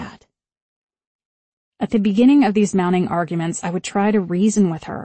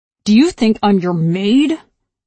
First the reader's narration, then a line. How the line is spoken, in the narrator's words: She said it through her teeth, snarling